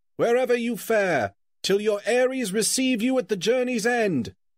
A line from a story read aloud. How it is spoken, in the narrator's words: they cried